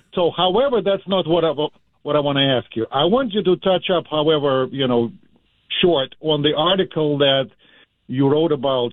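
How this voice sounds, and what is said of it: Portuguese-Russian accent. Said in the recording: “You'll know me by my accent, you know. ... It would be obvious. ... It's a Portuguese-Russian accent.”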